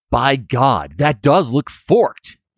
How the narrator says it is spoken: he exclaims

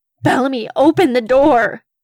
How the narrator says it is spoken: They yelled desperately

